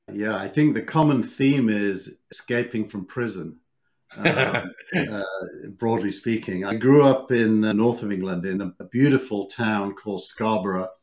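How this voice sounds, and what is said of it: British accent. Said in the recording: “as a fellow British American, even though you have a far better accent than I do”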